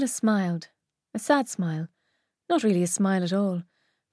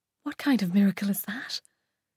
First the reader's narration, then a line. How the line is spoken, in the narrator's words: I continued to whisper, not wanting Simon to hear me